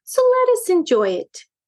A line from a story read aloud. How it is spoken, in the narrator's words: broke in Madame Meow cheerfully